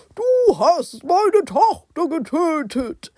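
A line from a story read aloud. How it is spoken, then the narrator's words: Startled cry. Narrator (German): Beide Könige erschraken und Barbaros rief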